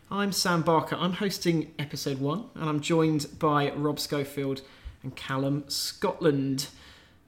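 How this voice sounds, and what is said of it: Polished radio presenter voice. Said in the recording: “radio voice ... Big fan of your radio voice.”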